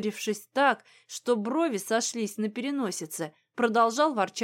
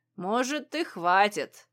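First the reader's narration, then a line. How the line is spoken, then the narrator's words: Snorting under breath. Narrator (Russian): фыркнул себе под нос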